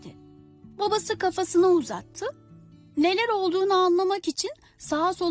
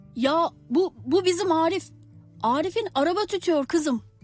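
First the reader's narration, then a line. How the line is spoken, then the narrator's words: Plain. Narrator (Turkish): dedi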